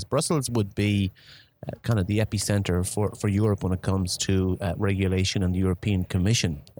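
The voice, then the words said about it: Irish accent. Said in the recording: “from my accent, you guess I'm Irish”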